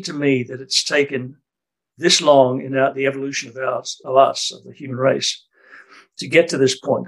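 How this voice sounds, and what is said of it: Australian accent. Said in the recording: “my accent's Australian”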